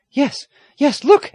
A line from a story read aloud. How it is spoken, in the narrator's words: Aggie cried